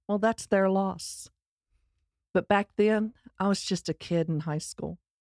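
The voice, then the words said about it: Texas accent. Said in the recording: “my Texas accent ... I sound like a hick”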